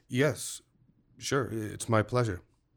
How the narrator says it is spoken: murmuring

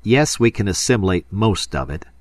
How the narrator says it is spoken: he said angrily

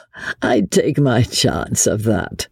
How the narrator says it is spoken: said Chauvelin, with a dry, rasping little laugh

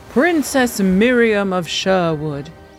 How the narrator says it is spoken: he boomed, as though addressing an adoring crowd

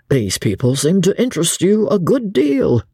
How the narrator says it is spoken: said Dobbin, laughing

